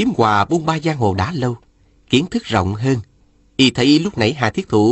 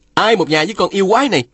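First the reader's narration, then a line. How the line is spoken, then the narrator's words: Angry shout. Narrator (Vietnamese): Phùng Bất Phá quát lên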